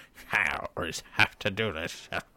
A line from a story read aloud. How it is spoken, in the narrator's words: the gnome who's drinking by himself, is just kind of grumbling with a